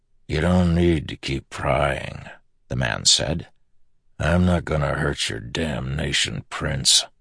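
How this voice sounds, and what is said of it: Low, grinding, scratchy accented voice. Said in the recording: “He had a low, grinding voice. Scratchy. Strange accent, too.”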